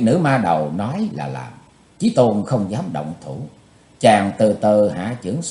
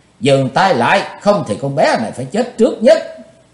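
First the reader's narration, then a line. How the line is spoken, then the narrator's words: Shrill scream. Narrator (Vietnamese): Tần Mỹ Nương thét lanh lảnh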